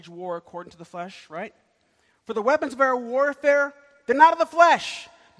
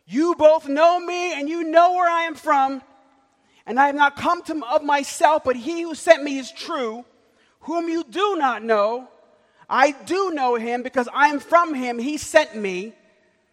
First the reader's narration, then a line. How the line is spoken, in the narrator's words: He cried out of the temple